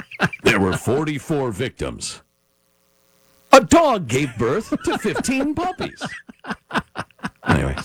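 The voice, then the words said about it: Mock newscaster tone. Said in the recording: “Change my tone of voice, like newscasters do.”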